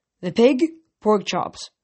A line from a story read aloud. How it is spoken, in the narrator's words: said